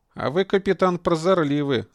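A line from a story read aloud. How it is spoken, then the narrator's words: Laughing. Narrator (Russian): засмеялся Виктор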